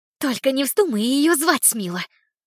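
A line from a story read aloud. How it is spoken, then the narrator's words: Hissing. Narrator (Russian): Услышала я шипение Лили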